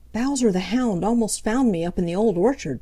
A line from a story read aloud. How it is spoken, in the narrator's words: panted Peter